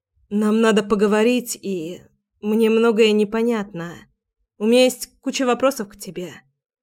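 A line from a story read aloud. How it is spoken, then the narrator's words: Uncertain. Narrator (Russian): сказала я неуверенно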